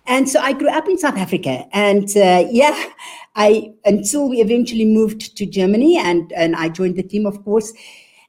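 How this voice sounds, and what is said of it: South African German accent. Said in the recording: “you can hear from my accent. I am actually a born South African, but I am German.”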